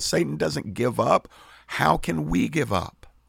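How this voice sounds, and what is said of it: Pleading voice. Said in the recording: “the pleading in my voice”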